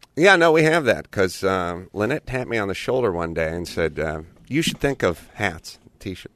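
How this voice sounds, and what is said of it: Worn-out, strained voice. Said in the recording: “My voice is shot. I'm tired.”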